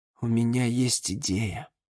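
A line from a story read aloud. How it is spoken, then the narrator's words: Quiet. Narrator (Russian): тихо сказала Валериана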